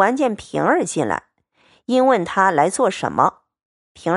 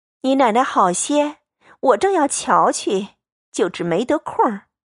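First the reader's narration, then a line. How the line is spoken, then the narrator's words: Hurried smiling question. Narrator (Chinese): 赵姨娘忙陪笑 又忙问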